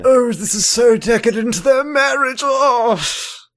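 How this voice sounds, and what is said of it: Put-on posh British accent. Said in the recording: “What is that voice? ... I love this show so much it made me British.”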